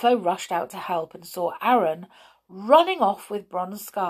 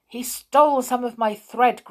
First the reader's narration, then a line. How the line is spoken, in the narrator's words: grumbled Aaron, frightened